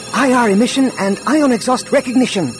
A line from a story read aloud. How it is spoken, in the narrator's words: Droma said excitedly